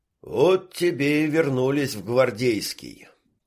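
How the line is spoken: Tired exhale. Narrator (Russian): устало выдохнул медоед

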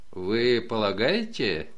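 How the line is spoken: Embarrassed muttering. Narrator (Russian): смущенно пробормотал лейтенант

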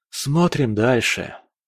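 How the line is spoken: Sighed. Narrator (Russian): вздохнул

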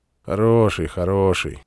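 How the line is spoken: Gloomy, continuing. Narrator (Russian): мрачно продолжал начавший разговор

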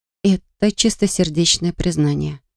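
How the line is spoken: Whisper. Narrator (Russian): прошептала я

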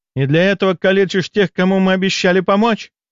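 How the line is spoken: Angry female cry. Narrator (Russian): В гневе вскрикнула женщина

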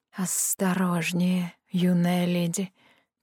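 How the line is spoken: Soft cooing, slight hiss. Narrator (Russian): проворковал тихий голос с чуть заметным шипением в первом слове

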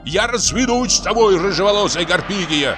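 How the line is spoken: Shout. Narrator (Russian): крикнул Бутронца

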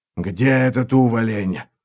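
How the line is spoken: Mage growling. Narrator (Russian): прорычал маг

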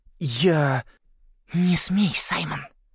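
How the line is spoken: Small hiss near ear. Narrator (Russian): прошипел голосок у уха

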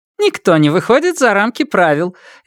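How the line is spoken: Cheerful. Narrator (Russian): весело сообщила

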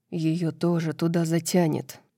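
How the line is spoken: Whisper. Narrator (Russian): прошептал Шахари Хант

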